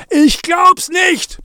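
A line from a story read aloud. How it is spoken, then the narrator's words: Roar. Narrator (German): brüllte Zachi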